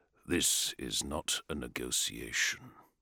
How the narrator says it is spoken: he said quietly

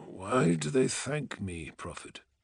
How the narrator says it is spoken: he murmured

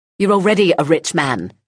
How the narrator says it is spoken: snapped

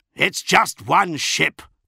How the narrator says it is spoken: barked Namatjira

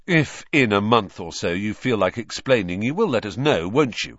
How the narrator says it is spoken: said Ron irritably

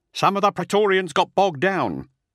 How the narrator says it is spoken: a ballistae sergeant shouted back

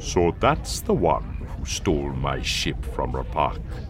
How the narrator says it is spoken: he said, his voice thoughtful

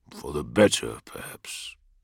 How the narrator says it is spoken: muttered Russ

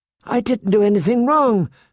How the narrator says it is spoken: Sansa pleaded with him

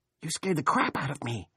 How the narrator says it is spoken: she whispered

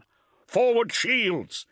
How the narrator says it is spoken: Hector cried again

